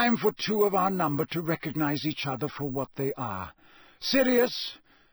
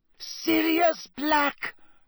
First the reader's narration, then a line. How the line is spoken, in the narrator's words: she shrieked